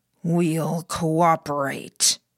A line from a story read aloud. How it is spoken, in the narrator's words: Catcher said, growling the words